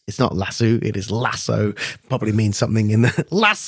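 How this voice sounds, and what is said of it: Northern English accent. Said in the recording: “some sort of northern accent there”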